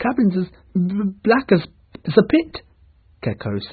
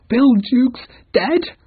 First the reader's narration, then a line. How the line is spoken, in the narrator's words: cried the shocked pirates